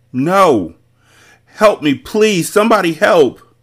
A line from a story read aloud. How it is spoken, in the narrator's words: Bree screamed at the top of her lungs as she fought Mati off